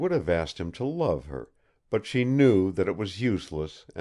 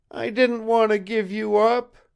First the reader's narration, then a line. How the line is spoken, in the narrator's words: wailed Zita, now forgetting herself